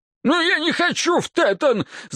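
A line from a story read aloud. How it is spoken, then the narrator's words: Wailing yell. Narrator (Russian): завопил он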